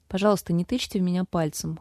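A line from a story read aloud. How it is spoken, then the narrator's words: Cold. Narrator (Russian): холодно сказала женщина повыше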